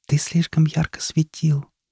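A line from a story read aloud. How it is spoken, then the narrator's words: Small creature's whisper. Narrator (Russian): прошептал маленький светлячок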